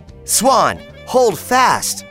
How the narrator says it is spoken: called out Peter

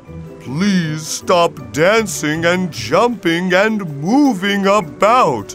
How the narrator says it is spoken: cried the whale

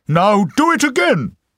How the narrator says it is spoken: cried the emperor

